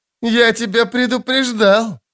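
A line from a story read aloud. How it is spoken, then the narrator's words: Laughing loudly. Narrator (Russian): расхохотался казначей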